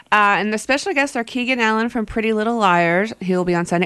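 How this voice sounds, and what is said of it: Congested, clogged-up nose voice. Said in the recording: “announcer voice? ... With my clogged up nose. ... I sound weird.”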